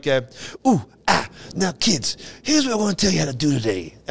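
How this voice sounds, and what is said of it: Imitated accent, hipster-like voice. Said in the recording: “he talked with an accent like ... like something like a hipster.”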